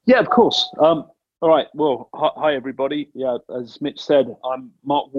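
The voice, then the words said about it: British accent. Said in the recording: “with your U.K. accent”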